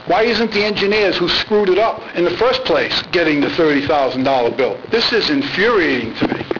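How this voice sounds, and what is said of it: Raised, frustrated voice. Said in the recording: “raising my voice”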